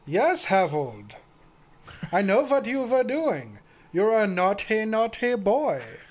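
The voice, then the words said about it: Put-on German accent. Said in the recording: “in a German accent”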